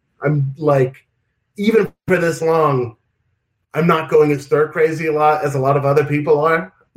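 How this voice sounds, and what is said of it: New York accent. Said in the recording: “My father is from Brooklyn, New York ... I grew up with a very big, for whatever reason, very influenced by his ... So I inherited the accent from him.”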